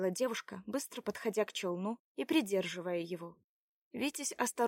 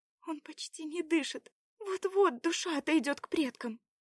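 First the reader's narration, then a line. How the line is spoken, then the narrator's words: Sobbing, trying to hold on. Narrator (Russian): всхлипнула она, стараясь держаться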